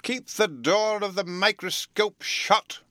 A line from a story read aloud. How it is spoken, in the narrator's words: he cried